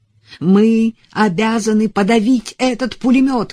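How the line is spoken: Officer's shout. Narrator (Russian): крикнул офицер, командующий добровольцами

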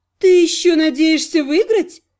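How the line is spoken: Laughing. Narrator (Russian): хохотнула Розалия

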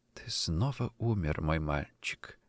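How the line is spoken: Barely audible anguished whisper. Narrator (Russian): шептала Адель едва слышно, но с такой сердечной мукой

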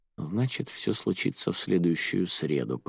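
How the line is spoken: Muttered under breath. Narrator (Russian): пробормотала Радия себе под нос

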